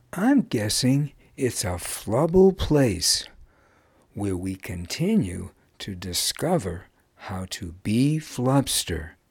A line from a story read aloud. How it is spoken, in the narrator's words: said Wuz